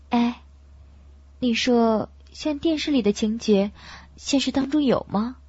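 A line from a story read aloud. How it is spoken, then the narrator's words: Gentle question. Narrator (Chinese): 白洁柔声地问高毅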